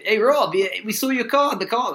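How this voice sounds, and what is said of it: Bad put-on accent. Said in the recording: “That's a terrible accent... That's a bloody English accent, isn't it?”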